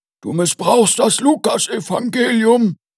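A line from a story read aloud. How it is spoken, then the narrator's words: Threatening shout. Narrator (German): rief Christoph Ballmann drohend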